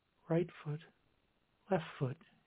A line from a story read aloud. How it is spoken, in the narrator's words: muttered, as her eyes fluttered once more before closing